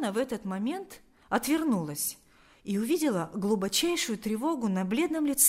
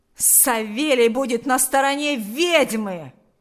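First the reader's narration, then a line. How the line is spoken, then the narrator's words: Vicious yell. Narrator (Russian): Злобно завопил Ахрим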